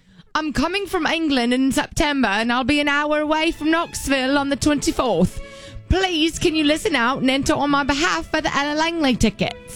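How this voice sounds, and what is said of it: Put-on English accent. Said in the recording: “Should I do it in English accent?”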